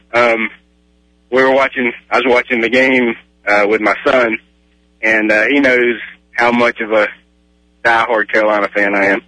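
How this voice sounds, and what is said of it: Southern American accent. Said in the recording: “Are you going to say Texas and Oklahoma because of your accent?”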